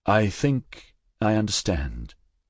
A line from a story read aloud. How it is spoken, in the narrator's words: he said slowly